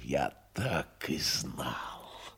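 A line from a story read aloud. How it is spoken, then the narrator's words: Hissed, face contorted. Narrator (Russian): лицо его перекосилось, и он не прошептал, а прошипел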